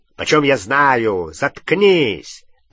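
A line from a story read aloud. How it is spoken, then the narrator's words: Rough bark. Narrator (Russian): рявкнул грубый голос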